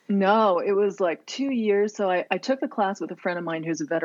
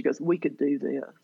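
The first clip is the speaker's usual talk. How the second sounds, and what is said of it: Put-on Mississippi Southern accent. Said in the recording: “she's from Mississippi ... That was a perfect accent.”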